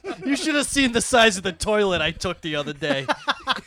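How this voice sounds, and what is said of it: Put-on Boston accent. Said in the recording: “He immediately turned into a Boston accent.”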